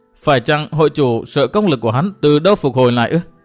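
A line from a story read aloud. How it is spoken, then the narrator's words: Young woman laughing. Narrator (Vietnamese): Thiếu nữ bật cười xòa nói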